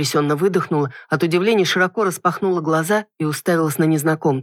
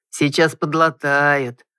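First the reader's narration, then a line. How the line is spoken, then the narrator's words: Gentle drawl. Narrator (Russian): ласково протянул мужчина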